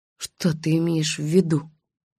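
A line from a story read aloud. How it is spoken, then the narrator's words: Barely audible whisper. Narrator (Russian): едва слышно прошептала я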